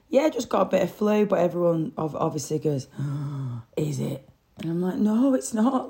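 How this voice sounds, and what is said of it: Sore, hoarse, deeper voice. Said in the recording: “that's why I sound like a bloke. Like, I do sound like a bloke anyway, but it's just magnified. Just a bit of a sore voice, really.”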